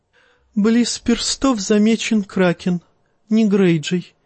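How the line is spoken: Giggling. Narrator (Russian): хихикнул он

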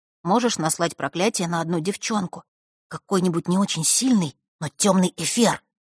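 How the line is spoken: Fearful whisper. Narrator (Russian): зашептал он, с опаской

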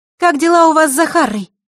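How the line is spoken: Loud question. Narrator (Russian): громко спросила она

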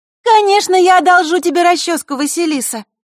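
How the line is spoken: Suddenly loud. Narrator (Russian): неожиданно громко произнесла подруга

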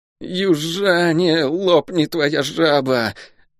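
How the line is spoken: Shivering, through teeth. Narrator (Russian): Дрожа от холода, процедил Лук

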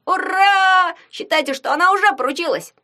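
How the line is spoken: Yelled. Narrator (Russian): Завопил Ягун

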